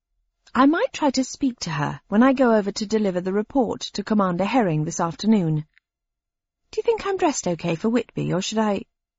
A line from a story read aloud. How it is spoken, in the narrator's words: My voice had trailed off